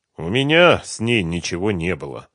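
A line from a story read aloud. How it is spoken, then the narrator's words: Tired. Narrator (Russian): устало сообщил Ренат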